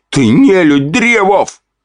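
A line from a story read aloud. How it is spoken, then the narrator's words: Shout. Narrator (Russian): вновь крикнули мне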